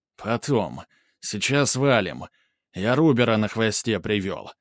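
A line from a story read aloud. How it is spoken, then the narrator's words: Through clenched teeth. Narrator (Russian): процедил Махно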